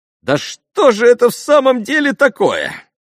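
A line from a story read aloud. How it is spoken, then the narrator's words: Sudden exclamation. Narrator (Russian): воскликнул Миусов, как бы вдруг прорвавшись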